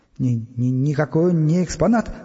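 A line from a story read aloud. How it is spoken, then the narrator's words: Strained stammer. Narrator (Russian): выдавил он, заикаясь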